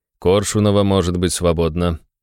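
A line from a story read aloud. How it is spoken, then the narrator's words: Calm director speaking. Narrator (Russian): спокойно произнес директор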